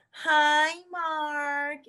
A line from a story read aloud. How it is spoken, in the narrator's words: My friends would all yell